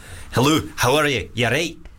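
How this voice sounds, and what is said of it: Attempted Scottish accent. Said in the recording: “Scottish”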